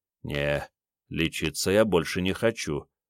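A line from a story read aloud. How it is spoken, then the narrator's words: Low voice. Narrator (Russian): вполголоса сказал Андрей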